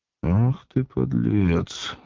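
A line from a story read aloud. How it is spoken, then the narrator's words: Thoughtful. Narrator (Russian): задумчиво сказал Волунд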